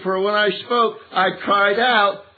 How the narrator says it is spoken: I shouted

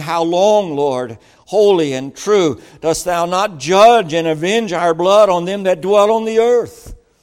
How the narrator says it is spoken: cried with a loud voice, saying

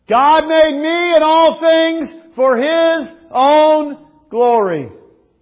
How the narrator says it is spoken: those 19 little second graders yelled

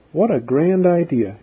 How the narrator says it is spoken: exclaimed Mary

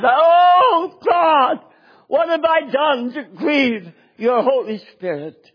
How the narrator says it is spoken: my heart was broken and I cried

